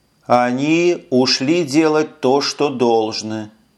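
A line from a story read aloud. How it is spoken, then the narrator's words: Plain. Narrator (Russian): ответила спутница Эша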